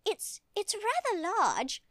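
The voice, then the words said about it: Prim British accent. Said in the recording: “I had such a prim British accent”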